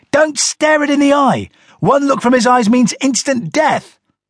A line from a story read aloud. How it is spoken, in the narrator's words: Donnie shouted at me